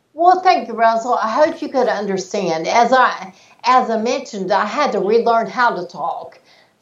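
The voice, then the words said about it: Speaks with a noticeable accent. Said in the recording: “I love the accent ... some of the accent is still there”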